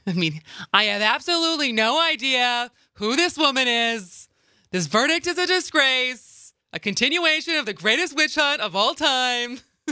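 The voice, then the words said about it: Donald Trump impression. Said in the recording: “That's not bad. ... That's your first Trump impression.”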